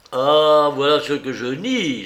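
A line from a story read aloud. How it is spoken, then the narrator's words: Doctor exclaiming. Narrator (French): s'écria le docteur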